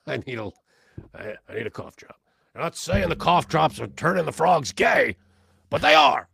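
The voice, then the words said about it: Imitates another person's voice. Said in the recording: “that Alex Jones impression is not easy”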